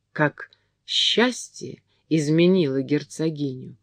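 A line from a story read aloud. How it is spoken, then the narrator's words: Courtiers whispering. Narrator (Russian): шептались меж собой придворные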